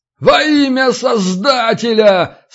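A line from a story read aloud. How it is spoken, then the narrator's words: Yelling again. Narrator (Russian): снова заорал Зиновий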